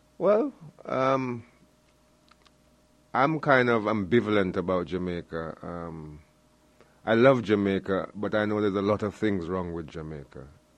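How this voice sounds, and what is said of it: Slight Jamaican accent. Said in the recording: “I detect a slight Jamaican accent.”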